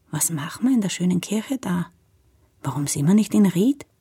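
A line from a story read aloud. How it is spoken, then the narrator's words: Very quiet, almost whispering. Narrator (German): meint sie ganz leise, fast flüsternd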